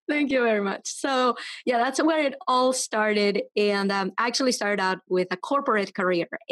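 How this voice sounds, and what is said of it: Venezuelan Spanish accent. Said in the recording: “the accent is from. I am from Venezuela ... the accent is not going anywhere ... I love your accent ... I'm all about cool accents”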